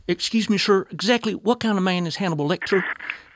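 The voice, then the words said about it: Put-on West Virginia accent. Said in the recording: “I will do my best to feign a West Virginia accent”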